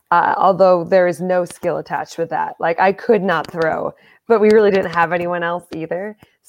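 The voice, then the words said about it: American accent. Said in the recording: “my American accent.”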